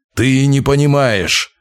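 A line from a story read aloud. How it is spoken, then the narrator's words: Growl. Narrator (Russian): зарычал Вяземский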